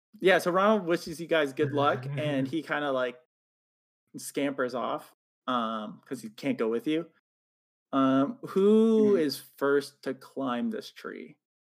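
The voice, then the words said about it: Speaks with a noticeable accent. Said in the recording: “the way that you said it, sorry. Like you said God, not God ... It's my accent.”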